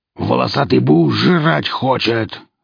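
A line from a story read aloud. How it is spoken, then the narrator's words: Gruff bark. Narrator (Russian): рявкнул Велес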